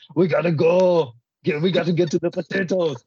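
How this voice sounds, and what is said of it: Imitates another person's voice. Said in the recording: “the Arnold impersonation. We always do Arnold.”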